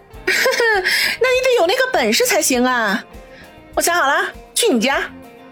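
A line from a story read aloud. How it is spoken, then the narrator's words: Chuckling. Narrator (Chinese): 叶小楠呵呵一笑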